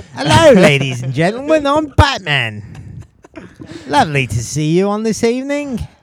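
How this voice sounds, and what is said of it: Put-on British accent. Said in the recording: “Batman can have a British voice. I can't do a British voice.”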